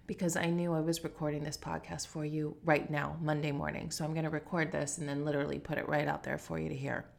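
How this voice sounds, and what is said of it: Scratchy voice. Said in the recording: “my voice is so scratchy”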